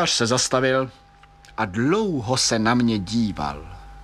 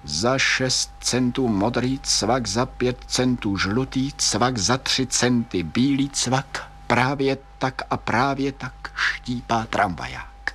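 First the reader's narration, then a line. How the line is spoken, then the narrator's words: Deep sigh, mumbled. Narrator (Czech): Vzdechl jsem zhluboka a zamumlal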